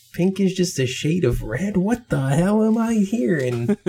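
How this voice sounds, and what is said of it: Imitates an older version of himself. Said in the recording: “my impression of myself in 10 years”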